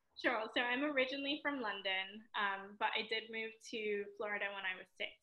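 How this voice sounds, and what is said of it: Mixed British and American accent. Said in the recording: “my accent is a little bit mixed, I would say. I get a little bit Australian sometimes ... That's a beautiful accent.”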